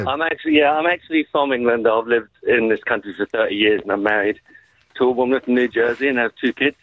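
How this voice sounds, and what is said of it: English accent. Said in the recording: “Oh, look at the accent. The accent.”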